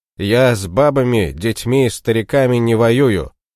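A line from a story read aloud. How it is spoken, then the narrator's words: Stern king. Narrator (Russian): строго сказал конунг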